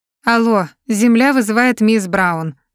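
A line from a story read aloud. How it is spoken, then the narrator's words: Mocking. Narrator (Russian): насмешливо произношу я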